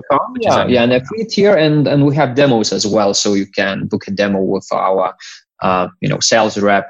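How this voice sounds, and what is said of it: Lithuanian accent. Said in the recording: “I'm hearing an accent. You're from Lithuania?”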